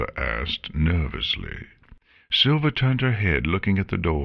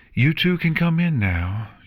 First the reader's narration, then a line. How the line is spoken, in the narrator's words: she called out